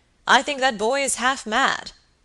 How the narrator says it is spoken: exclaimed the baronet

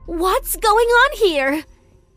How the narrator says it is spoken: She screamed angrily

